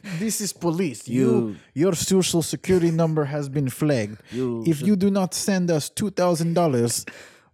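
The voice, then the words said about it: Mock half Russian, half Indian accent. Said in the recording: “this weird, like, half Russian, half Indian accent.”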